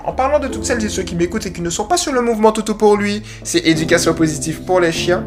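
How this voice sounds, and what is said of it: Slight Guadeloupean accent. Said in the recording (French): “il y a mon petit accent guadeloupéen qui est ressorti là”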